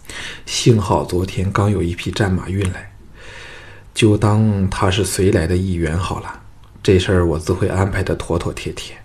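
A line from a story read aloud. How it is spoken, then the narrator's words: Weary sigh. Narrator (Chinese): 唐毅一听，同感头痛，叹道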